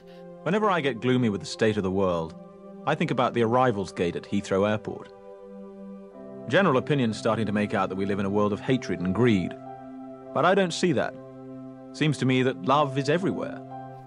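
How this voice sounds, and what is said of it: Put-on British accent. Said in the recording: “Excuse my terrible Hugh Grant ... Shitty impersonation ... that was a great Emma Thompson accent ... That was actually a really good British, at least by my standards. It was a great British accent.”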